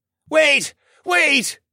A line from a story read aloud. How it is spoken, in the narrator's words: the priest called out